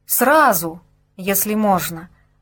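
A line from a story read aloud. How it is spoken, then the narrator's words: Almost pleading voice. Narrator (Russian): почти умоляющим голосом ответили ему из экипажа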